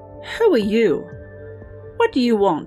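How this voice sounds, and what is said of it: Squeaky, tense character voice. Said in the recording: “in a squeaky voice. You could tell he was tense.”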